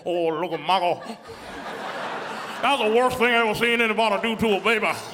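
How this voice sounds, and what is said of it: Imitates another person's voice. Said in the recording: “That's my impression of Cher.”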